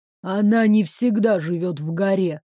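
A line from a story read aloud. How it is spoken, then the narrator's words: Gloomy. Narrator (Russian): мрачно подал голос Горыныч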